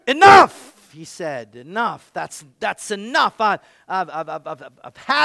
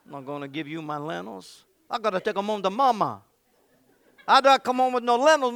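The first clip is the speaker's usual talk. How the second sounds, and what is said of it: Put-on Italian accent. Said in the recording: “my Italian accent”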